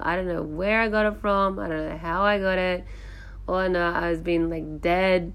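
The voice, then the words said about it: Sick, congested-sounding voice. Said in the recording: “sorry about my voice. I've had a cold for about a week and a half now”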